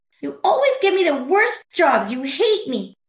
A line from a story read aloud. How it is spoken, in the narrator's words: she could scream